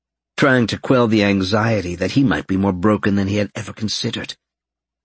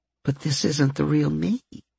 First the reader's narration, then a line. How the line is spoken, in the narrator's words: Fluff murmured